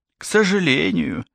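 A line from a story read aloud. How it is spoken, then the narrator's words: Sighing. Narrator (Russian): вздохнула Аника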